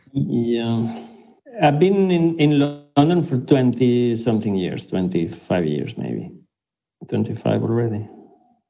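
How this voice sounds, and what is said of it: Foreign non-British accent. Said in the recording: “I will always keep this exotic thing and this foreign thing ... it starts with my accent”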